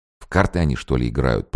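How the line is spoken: Officer mumbling. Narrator (Russian): пробормотал подпоручик

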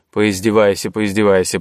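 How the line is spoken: Grumbling. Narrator (Russian): проворчал Варга

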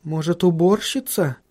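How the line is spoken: Uncertain suggestion. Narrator (Russian): неуверенно предположила она

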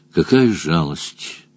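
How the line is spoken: Shaky sigh. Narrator (Russian): прерывисто вздохнул Мадж

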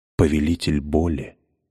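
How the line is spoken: Whispering coin. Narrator (Russian): прошептала монета

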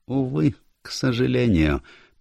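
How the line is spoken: Sad agreement. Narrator (Russian): печально согласился с ним маленький бельгиец

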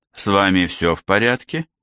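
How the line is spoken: Giggling question. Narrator (Russian): все еще хихикая спросил Чеп

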